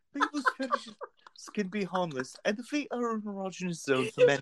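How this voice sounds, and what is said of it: Put-on female English accent. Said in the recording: “Doubtfire my way through this... Total this fucking Doubtfire... female English accent as a man, the only thing you can do is Mrs. Doubtfire”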